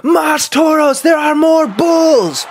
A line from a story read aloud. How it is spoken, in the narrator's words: someone yelled